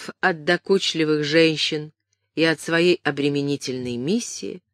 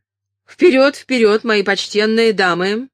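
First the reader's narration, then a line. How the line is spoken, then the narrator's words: Impatient shout. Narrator (Russian): нетерпеливо прокричал он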